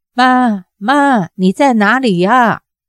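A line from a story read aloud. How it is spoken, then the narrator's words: Anxious cry. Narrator (Chinese): 郭芙急叫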